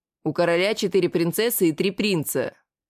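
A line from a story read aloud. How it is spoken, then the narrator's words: Displeased voice. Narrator (Russian): недовольным голосом произнес я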